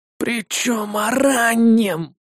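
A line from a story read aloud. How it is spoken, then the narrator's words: Grunted, scholar. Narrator (Russian): снова буркнул ученый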